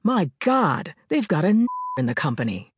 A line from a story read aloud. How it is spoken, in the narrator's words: an old white man exclaimed